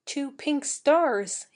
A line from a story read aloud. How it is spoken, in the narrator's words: murmured